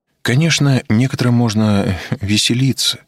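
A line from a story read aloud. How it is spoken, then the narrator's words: Glum, dejected. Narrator (Russian): уныло произнесла Петухова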